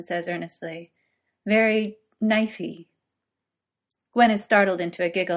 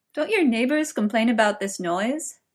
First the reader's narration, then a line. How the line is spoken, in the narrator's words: Merlin asks, out of breath with laughter